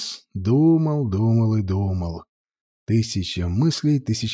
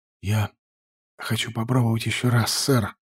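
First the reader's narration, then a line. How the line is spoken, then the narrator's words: Exhaled. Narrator (Russian): выдохнул он наконец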